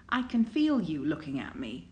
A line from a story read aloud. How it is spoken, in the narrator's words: Xiaoyunlan's voice has a rasp in it